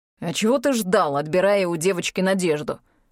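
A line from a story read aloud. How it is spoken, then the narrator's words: Angry question. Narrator (Russian): зло спрашивает Форкин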